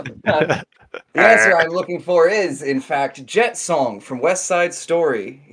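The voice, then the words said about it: Game show host voice. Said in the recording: “I'm going into my game show voice.”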